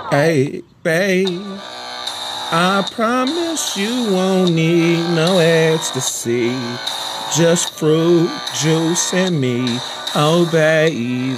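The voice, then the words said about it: Very raspy singing voice. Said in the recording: “I could sing a little better, but my voice is hella raspy.”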